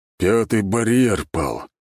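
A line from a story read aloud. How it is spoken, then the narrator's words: Heavy voice. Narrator (Russian): тяжелым голосом сказал Алексей Возвышенский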